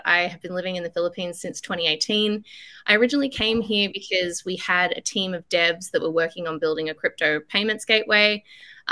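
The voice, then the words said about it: Australian accent. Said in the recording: “You can tell by my accent, I'm Aussie”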